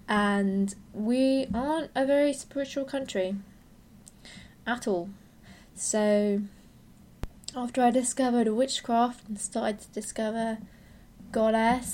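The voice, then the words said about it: British accent. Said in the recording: “you can tell from my accent I'm from the UK”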